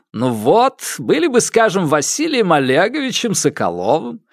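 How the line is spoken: Chuckling. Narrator (Russian): хохотнул Вансовский

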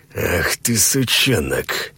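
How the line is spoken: Vicious hiss. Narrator (Russian): злобно прошипел Саид

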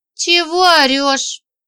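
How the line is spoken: Lazy question. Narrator (Russian): Верка спросила лениво

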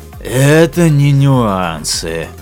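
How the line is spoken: Heavy sigh. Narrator (Russian): тяжело вздохнул Лафин

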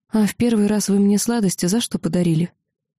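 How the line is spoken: Calm, smiling answer. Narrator (Russian): улыбнулся и спокойно ответил

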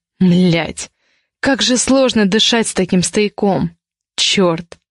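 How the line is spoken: Near growl of frustration. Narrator (Russian): Едва не прорычал от досады

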